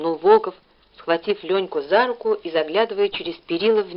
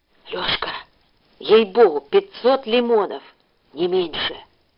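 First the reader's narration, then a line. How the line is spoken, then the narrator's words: Feverish whisper. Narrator (Russian): лихорадочно зашептал Волков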